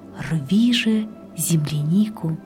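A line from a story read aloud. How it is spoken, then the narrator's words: Quiet. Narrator (Russian): а Июнь ей тихо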